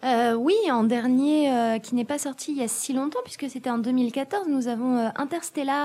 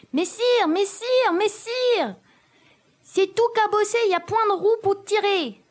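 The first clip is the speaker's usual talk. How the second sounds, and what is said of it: Imitates a comic film character's voice. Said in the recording (French): “imitation de Jacouille la Fripouille ... d'autres imitations de qualité comme celle-là”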